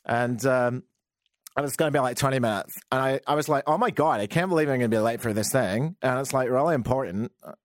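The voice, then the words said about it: Deliberately terrible impersonation of a woman. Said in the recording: “This isn't my generic Canadian. It's just a terrible impersonation.”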